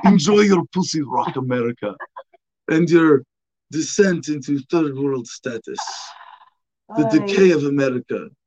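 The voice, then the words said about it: Snobby, arrogant put-on Arab accent. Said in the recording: “this is the one voice I do well ... I can do like snobby, arrogant Arab dude. That's just the one accent I can do correctly ... It's a fun accent.”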